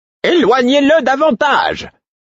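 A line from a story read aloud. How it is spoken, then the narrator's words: Shouting. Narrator (French): cria-t-elle au fou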